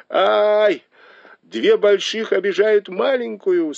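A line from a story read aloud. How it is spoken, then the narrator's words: Laughing exclamation. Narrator (Russian): со смехом воскликнул Бао Юй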